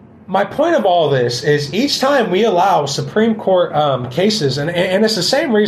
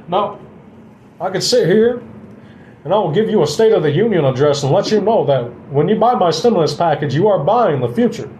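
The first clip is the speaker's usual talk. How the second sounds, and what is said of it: Barack Obama impression. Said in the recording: “I can do an awesome Barack Obama impression,”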